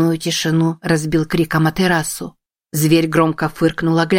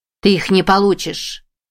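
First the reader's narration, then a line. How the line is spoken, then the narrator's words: Growling beast. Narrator (Russian): Зверь зарычал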